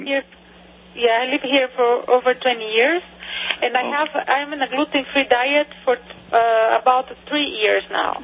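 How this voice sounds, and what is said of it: Brazilian accent. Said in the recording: “What's your accent? ... I'm from Brazil.”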